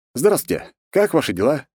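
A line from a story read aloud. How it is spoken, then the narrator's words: Cheerful question. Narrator (Russian): весело спросил я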